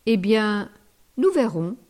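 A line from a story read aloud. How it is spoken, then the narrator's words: Plain. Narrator (French): dit-elle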